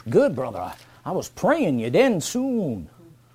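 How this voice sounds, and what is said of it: Put-on Southern accent. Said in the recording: “that weird southern accent”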